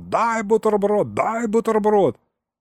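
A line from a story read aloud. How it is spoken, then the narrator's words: Sudden yell. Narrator (Russian): он вдруг заорал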